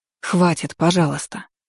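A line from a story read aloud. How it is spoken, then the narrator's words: Tired pleading. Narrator (Russian): устало попросила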